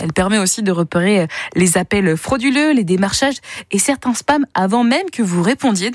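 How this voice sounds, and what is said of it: English accent speaking French. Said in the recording (French): “ce délicieux accent anglais qui est le vôtre”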